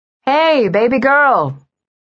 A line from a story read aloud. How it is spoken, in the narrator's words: Carrie called out